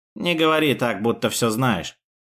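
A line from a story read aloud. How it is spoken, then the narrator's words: Dry mutter. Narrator (Russian): сухо пробормотал Лэнс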